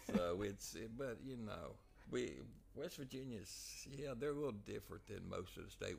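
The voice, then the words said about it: Southern West Virginia hillbilly accent. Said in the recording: “I speak a little Southern, a little hick blend ... You got that West Virginia hillbilly with a Tennessee accent ... Southern with it.”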